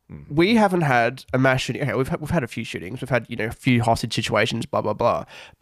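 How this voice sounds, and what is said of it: Australian accent. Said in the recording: “I'm an Australian, yeah, as you can probably tell by the accent.”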